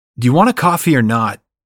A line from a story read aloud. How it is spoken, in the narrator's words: He shouts